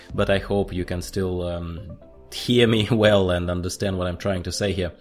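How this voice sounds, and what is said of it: Sick, congested-sounding voice. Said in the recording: “I apologize for my voice. I'm trying to shake off this cold”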